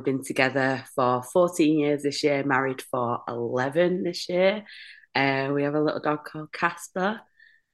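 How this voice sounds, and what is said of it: Northern English accent. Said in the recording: “it sounded, I was like, you're English. ... it sounded northern.”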